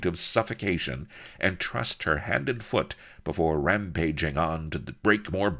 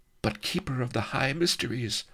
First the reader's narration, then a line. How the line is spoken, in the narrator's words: faltered Prisiltlin